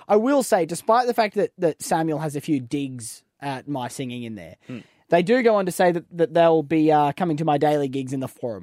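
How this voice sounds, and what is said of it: Strong Australian accent. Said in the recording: “so Aussie, even to the point of sounding bogan ... accent makes it very clear he is true blue ... I have a very distinctive Australian accent”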